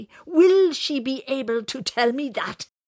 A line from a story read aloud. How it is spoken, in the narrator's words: His voice was getting louder, and he got angrier